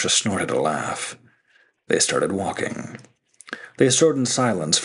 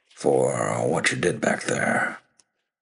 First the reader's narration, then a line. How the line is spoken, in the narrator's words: he grumbled